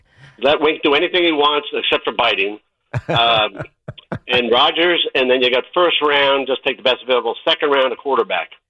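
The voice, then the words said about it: New Jersey accent. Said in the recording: “New Jersey accent”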